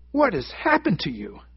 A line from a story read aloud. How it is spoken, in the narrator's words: the doctor exclaimed